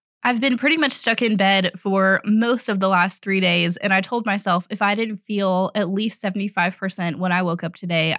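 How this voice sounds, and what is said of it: Hoarse, sore-throat voice. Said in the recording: “you probably hear it in my voice, but I have had strep throat.”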